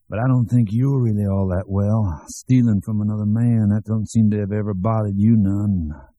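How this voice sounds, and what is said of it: Thick rural Southern US accent. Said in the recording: “speaking in that thick cracker-barrel southern accent that was somehow as bald and staring as an unpainted barn”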